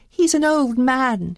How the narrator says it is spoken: she begged

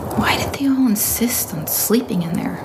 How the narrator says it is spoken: she asked herself under her breath

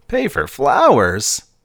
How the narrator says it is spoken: laughed to himself

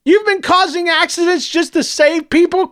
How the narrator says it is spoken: Clovis screamed through his tears

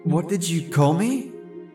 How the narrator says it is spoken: I asked, my voice sounding weird in my head

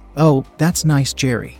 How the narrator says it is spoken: said

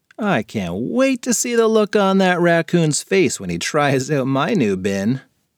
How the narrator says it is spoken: Nick chuckled to himself

